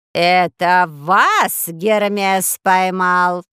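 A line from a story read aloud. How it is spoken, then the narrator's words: Shrill woman's question. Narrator (Russian): спросила женщина пронзительным голосом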